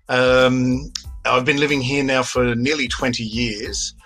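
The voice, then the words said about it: Australian accent. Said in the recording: “as you can hear from my accent, an Australian”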